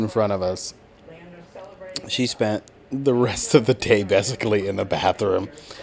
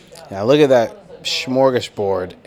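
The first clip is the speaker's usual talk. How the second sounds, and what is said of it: Sarcastic tone. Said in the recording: “I am being sarcastic.”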